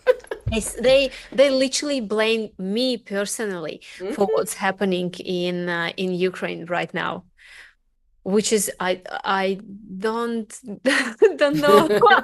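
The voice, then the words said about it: Russian accent. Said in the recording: “Being Russian for me and for people hearing my accent”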